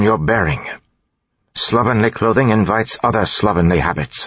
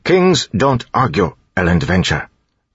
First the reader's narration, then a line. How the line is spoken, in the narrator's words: Tyndall said firmly